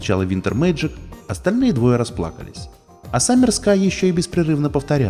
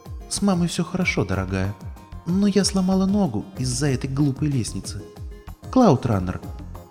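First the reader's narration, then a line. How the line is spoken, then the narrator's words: Deep sigh, then speech. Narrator (Russian): Санни глубоко вздохнула и сказала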